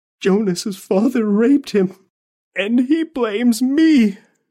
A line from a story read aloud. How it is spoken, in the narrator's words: whimpered